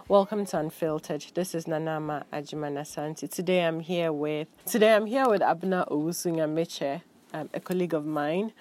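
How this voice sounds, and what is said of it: Congested, slightly off-sounding voice. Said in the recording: “I have a cold, so if I sound a bit off or weird, it's the cold.”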